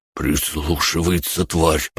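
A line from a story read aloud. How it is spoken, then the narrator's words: Pockmarked man's mutter. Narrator (Russian): пробормотал рябой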